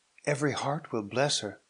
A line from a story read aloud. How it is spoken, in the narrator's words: cried Theodore with rapture